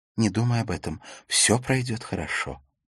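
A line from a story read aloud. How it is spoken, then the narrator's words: Whispered. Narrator (Russian): Ракель прошептала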